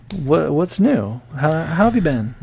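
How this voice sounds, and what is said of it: NPR-style radio voice. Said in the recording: “I'm just talking in my NPR voice.”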